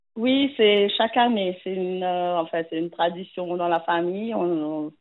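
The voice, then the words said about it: Slight Mauritian accent in French. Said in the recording (French): “Vous avez un petit accent ... Je viens de l'île Maurice.”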